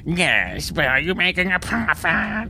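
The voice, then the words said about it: Put-on alien character voice. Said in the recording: “That's about on par with my Australian accent. ... It's my new Ferengi voice.”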